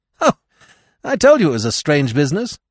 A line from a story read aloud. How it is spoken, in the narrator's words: he cried